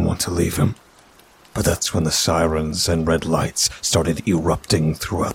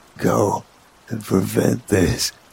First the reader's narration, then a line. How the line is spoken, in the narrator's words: he muttered